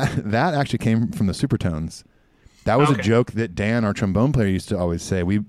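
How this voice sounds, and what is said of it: Usual voice. Nothing is said of it.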